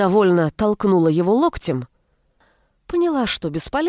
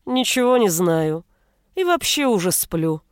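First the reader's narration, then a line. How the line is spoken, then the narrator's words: Sleepy man mumbling. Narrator (Russian): Сонно пробормотал мужчина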